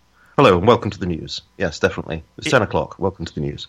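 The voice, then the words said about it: BBC-style British accent. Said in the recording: “I have a BBC accent ... I could be a newsreader.”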